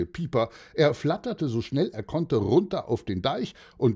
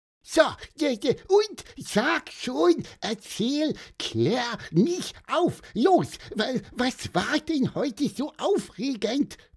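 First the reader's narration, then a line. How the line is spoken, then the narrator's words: Squeaked. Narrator (German): piepste Pieper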